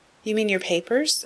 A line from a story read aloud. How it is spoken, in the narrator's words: asked Beth